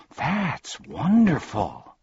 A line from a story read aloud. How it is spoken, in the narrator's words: gasped Milo